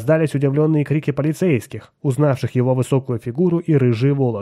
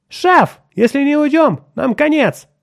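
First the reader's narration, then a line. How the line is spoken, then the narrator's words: Shout. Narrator (Russian): крикнул Отто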